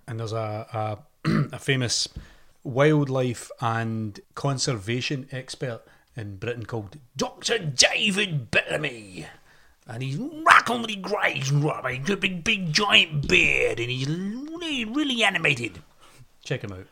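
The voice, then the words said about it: Scottish Glasgow accent. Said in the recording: “Where is your accent from? ... Scotland. ... Glasgow.”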